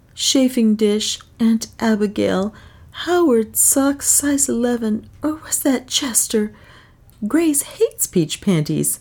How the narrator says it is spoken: Another scanned a tattered slip of paper and murmured hopelessly

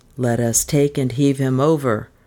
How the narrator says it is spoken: grunt of dooley-bearers

